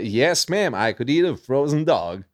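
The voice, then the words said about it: Put-on American cowboy accent. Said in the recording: “an American? ... accent? ... most American accent I could I could do that.”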